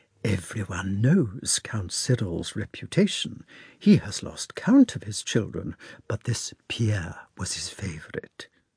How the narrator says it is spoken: she said significantly and also in a half whisper

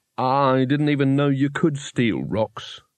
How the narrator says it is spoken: said Rincewind, wearily

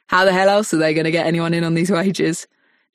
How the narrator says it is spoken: She laughs dryly as if she has amused herself

